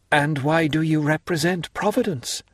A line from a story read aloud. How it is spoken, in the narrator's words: cried Mercedes